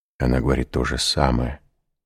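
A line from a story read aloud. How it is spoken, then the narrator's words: Whisper. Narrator (Russian): прошептал ювелир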